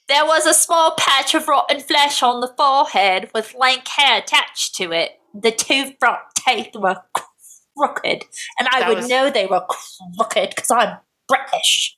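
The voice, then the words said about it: Put-on British accent. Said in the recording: “Should I do this in a British accent?”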